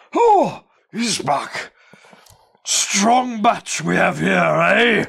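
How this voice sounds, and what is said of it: Character voice with unidentified accent. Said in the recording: “I don't know what accent that is.”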